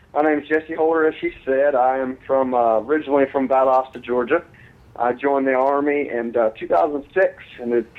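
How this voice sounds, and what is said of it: Southern US accent. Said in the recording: “you have that nice southern accent going on ... you sound like a good old southern boy”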